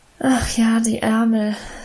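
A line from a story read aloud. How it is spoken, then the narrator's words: Sigh. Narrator (German): seufzte Emma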